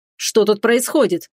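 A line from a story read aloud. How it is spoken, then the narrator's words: Furious thundering voice. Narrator (Russian): яростно прогремел голос Рейтона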